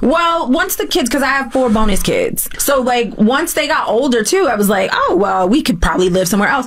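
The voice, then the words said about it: Mixed British-American accent. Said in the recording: “oh, I hear that British accent ... She now has a UK-American accent”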